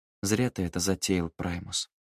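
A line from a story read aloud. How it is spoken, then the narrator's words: Quiet. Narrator (Russian): тихо произнес Луций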